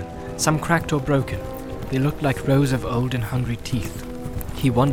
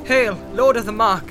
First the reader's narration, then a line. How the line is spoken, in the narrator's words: cried